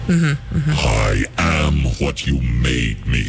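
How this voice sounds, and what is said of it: Scary deep villain voice. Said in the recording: “Scary voice right there.”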